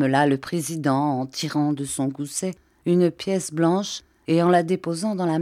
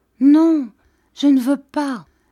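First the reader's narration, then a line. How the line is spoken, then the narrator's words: Sick child's moan. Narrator (French): gémit la petite malade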